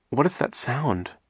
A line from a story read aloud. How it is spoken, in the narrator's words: Violet asked nervously